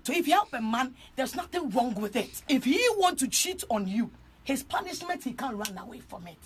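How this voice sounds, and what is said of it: Ghanaian accent. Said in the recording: “This is Ghanaian. That accent”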